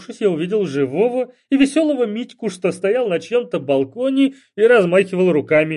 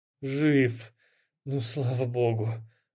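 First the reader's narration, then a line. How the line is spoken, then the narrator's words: Relieved exhale. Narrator (Russian): облегченно выдохнул я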